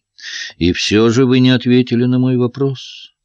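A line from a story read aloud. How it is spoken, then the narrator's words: Gentle reminder. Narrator (Russian): мягко напомнил Паттер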